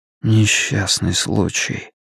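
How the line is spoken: Near-whisper repetition. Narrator (Russian): повторил Стью чуть ли не шепотом

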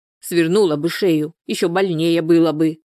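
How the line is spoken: Grumbling without malice. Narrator (Russian): проворчала Анфиса, но в ее голосе не чувствовалось ни капли злобы

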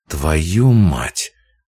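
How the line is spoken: Through gritted teeth. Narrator (Russian): процедил Нестор

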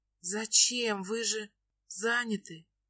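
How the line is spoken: Gentle, smiling hint. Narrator (Russian): Пытаюсь улыбнуться и мягко намекнуть

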